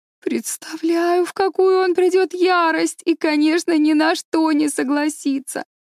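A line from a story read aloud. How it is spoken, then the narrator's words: Moaned. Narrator (Russian): простонала Энн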